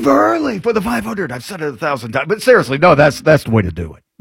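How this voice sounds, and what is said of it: Usual voice. Nothing is said of it.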